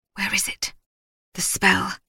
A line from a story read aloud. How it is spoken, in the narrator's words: Elsie whispered